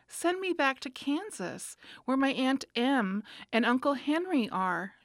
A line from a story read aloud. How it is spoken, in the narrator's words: she answered earnestly